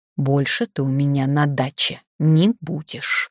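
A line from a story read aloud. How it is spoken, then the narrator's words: Hissing. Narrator (Russian): зашипела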